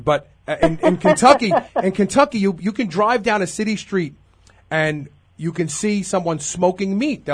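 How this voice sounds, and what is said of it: Brooklyn New York accent. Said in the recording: “I'm originally from Brooklyn. ... Your accent”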